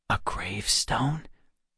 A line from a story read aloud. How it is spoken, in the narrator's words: Alex said in a lowered voice